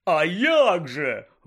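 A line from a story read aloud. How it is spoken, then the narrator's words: Exclaiming. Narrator (Ukrainian): вигукнув Бегмен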